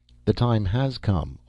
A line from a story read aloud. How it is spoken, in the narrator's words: Austin said gently